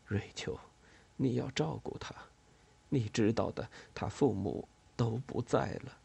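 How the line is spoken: Hoarse. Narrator (Chinese): 塞奥蒙，医师，声音沙哑

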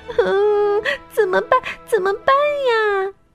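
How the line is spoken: Loud crying, mixed emotions. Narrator (Chinese): 熊妈妈不知道是高兴还是悲伤，她突然大声哭了起来

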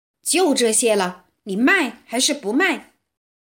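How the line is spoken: Loud shouting. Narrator (Chinese): 公爵叫嚷起来

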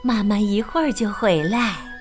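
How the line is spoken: Gentle, tired. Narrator (Chinese): 梅格妈妈又累又饿……温柔的说

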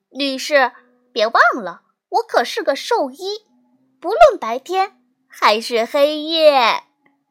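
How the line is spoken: Playful laughing. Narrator (Chinese): 露露调皮的笑着说

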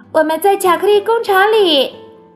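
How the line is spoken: Calling out. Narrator (Chinese): 查理叫道

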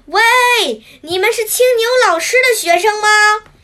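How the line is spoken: Loud calling. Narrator (Chinese): 一边大声喊着

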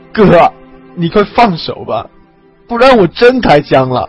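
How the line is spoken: Tearful but firm. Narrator (Chinese): 王刚带着哭腔、坚定的声音

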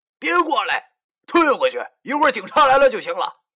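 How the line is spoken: Shouting while struggling. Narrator (Chinese): 我边压着这死娘们的双腿，边对她喊

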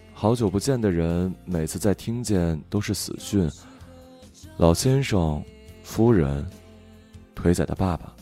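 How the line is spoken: Flat, detached. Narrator (Chinese): 淡淡的说

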